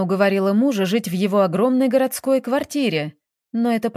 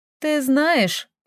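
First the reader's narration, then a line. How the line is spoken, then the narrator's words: Laughing. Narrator (Russian): смеялась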